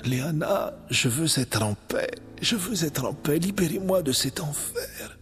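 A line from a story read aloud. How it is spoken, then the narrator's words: Dying plea. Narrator (French): implora se mourant dans les bras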